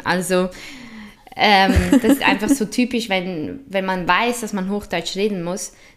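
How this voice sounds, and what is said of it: Swiss German accent in Standard German. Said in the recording (German): “meine Gesprächspartnerin, die deren Akzent schlägt meine nämlich um Welten ... charmanten Akzent ... so typisch schweizerisch”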